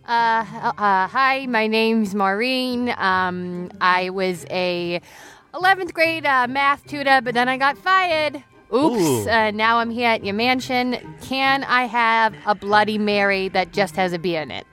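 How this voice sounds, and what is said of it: Comedic character voice with accent. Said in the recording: “We'll be playing a cavalcade of characters that you suck their accent out of”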